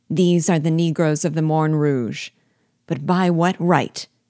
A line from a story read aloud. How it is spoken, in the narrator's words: added he, raising his voice